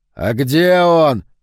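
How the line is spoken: Sudden yell. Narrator (Russian): завопил вдруг Палатазин

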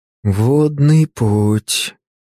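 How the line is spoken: Drawled. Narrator (Russian): протянул Артемий

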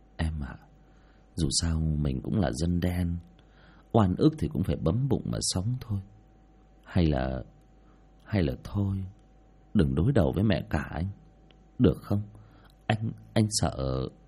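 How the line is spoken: Soft sighing. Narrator (Vietnamese): Hải ... khẽ thở dài

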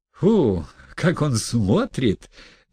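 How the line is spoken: Cheerful triumphant laughter. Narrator (Russian): весело рассмеялась торжествующая Арина Прохоровна

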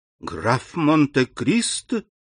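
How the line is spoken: Exclamation. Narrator (Russian): воскликнула она

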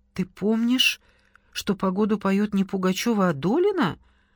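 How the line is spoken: Trembling question. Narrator (Russian): дрогнувшим голосом спросила Кира

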